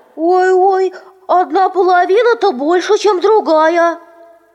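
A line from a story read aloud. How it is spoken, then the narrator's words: Young cubs shouting. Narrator (Russian): медвежата сразу закричали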